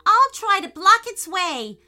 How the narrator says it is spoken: yelled Peyton, surfing as fast as he could

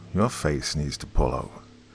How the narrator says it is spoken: He sluggishly mumbled

